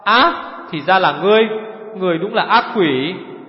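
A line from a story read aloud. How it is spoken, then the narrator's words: Shocked stammering. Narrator (Vietnamese): Trầm Sanco vụt biến sắc lắp bắp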